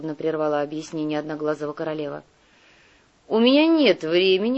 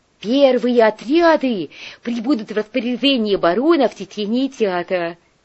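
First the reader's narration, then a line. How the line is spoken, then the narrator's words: Babbling in disbelieving joy. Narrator (Russian): пролепетал неверящий своему счастью кувалда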